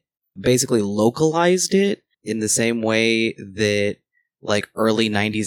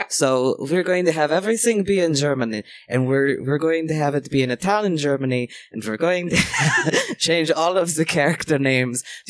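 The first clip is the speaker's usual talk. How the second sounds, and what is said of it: Put-on German accent. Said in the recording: “Do you not like my German accent?”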